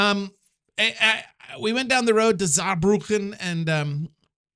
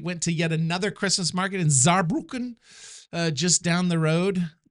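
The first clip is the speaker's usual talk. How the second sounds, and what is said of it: Voice cracks on one word. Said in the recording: “Did my voice just crack when I said Saarbrücken? Am I having puberty yet again?”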